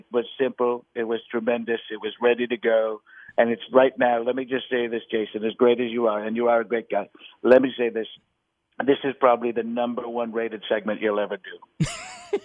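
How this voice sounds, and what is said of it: Donald Trump impression. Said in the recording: “I've been doing a Trump one for quite some time”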